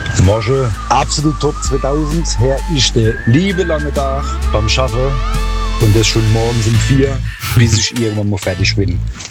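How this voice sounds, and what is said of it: Palatinate German dialect. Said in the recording (German): “ganz stolz seinen Pfälzer Dialekt gezeigt”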